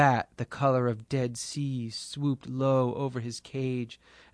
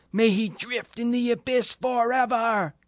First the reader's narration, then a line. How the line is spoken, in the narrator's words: Three hobgoblin children and their fire-haired mother shouted